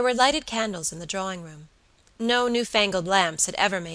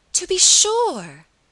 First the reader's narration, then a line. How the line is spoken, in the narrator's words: cried Miss Audley, with a vehemence that startled her cousin